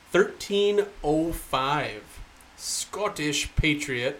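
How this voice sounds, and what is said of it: Put-on Scottish accent. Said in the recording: “That was a good Scottish accent,”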